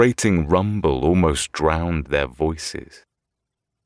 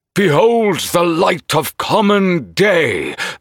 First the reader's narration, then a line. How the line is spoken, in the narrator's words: the old man in white cried out triumphant